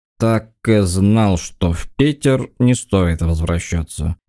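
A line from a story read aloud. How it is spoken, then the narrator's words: Drunken grumble. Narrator (Russian): нетрезво проворчал арестованный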